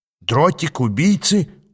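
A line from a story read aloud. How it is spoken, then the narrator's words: Surprised exclamation. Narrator (Russian): удивленно воскликнул Иштван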